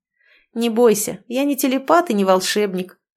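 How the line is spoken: Laughing. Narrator (Russian): рассмеялся Кир

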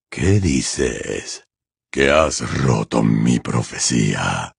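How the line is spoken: Quiet question. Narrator (Spanish): preguntó Voldemort, con voz queda

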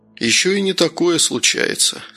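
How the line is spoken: Calm. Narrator (Russian): спокойно проговорил Новиков

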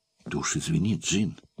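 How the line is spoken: Flustered emotional mumbling. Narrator (Russian): забормотал он, барахтаясь в сбивающих с толку потоках нежности, испуга и радости

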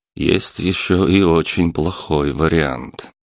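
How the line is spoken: Grim. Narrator (Russian): мрачно добавил лейтенант

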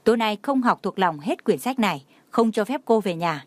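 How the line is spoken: Angry. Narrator (Vietnamese): tức giận chỉ về phía cô nói

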